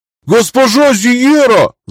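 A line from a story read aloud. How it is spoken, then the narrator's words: Man's howl. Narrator (Russian): взвыл мужик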